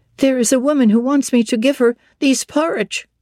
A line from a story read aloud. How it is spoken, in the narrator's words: exclaimed